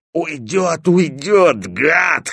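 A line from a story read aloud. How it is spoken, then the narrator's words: Hoarse wheeze. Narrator (Russian): хрипел Стопка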